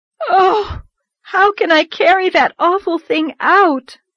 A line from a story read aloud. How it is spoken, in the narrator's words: moaned Anne with a shudder